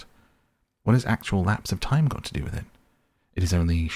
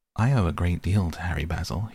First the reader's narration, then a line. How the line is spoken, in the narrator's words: said